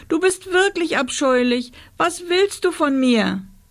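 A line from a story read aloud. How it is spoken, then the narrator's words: Sobbing. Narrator (German): schluchzte Rosa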